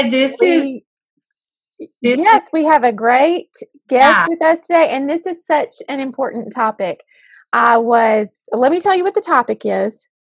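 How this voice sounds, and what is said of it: Southern American accent. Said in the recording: “Two school counselors who love their jobs. Oh, and they happen to have Southern accents too.”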